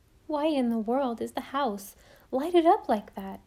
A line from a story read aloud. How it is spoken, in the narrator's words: exclaimed Anne